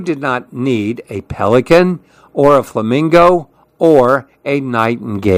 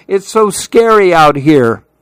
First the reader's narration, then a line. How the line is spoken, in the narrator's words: cried Lou